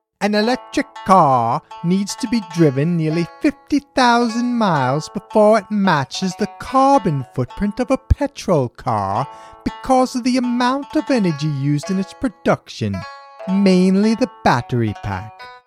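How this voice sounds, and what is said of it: Poor put-on British accent. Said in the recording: “I really wish I did a British accent here. You know what? I'm just going to go for it. ... my horrible accent”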